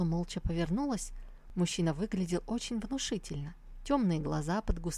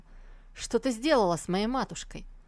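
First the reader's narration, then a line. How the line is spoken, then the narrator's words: Angry bark. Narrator (Russian): Увидев мать в плачевном состоянии, он рявкнул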